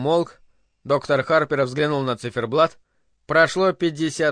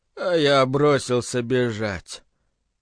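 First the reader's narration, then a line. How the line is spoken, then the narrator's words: Flat, lifeless voice. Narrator (Russian): бесцветным, неживым голосом отвечал Биллингс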